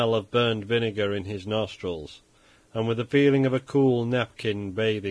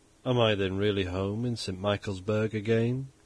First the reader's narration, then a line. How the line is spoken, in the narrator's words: he murmured, without unclosing his eyes